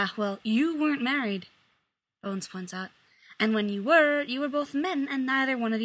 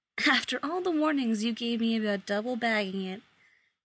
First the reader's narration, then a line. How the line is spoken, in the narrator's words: Jim sighs, grinning a little